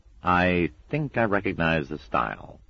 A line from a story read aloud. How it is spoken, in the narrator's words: said Newt grimly